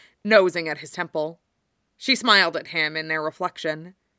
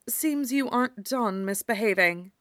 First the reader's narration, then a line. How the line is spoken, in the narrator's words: she murmured